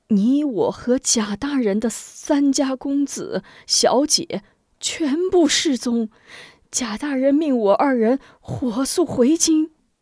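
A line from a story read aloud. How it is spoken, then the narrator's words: Glum, near tears. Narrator (Chinese): 许人哭丧起脸道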